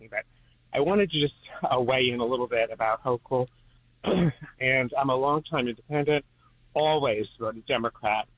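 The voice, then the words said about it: Slightly out of breath. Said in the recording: “I'm a little out of breath because I've been walking”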